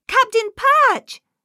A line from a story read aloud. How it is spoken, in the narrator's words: spluttered Nate in surprise